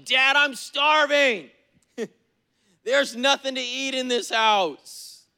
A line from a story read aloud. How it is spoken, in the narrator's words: They'll yell at you and say something like